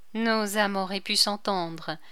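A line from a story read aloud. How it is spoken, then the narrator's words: Grave tone. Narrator (French): dit-elle d'un ton grave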